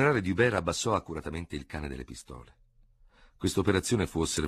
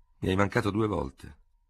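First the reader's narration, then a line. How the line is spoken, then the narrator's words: Cold. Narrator (Italian): disse freddamente il vincitore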